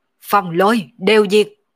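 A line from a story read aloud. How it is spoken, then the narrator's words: Sudden loud shout. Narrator (Vietnamese): Đột nhiên Mộng Vô Nhai quát to một tiếng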